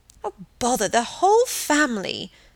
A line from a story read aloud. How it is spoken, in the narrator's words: snapped Margaret